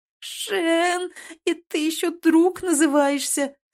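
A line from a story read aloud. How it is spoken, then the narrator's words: Elf moaning. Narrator (Russian): стонал эльф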